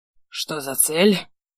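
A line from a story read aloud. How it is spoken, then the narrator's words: Hoarse repeated question. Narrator (Russian): Охрипнув, раз переспросил я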